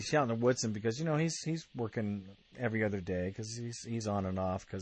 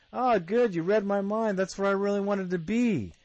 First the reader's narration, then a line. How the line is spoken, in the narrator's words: And Woodson screams back at him and says